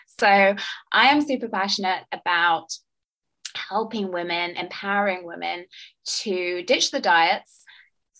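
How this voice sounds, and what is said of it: British accent. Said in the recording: “as you can tell from my accent, I am from the UK”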